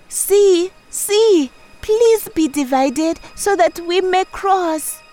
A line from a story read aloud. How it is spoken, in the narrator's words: she cried